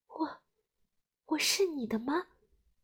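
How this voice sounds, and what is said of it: Quiet, hesitant small voice. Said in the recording (Chinese): “羽毛小声的问”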